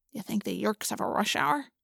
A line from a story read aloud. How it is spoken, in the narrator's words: Marco muttered under his breath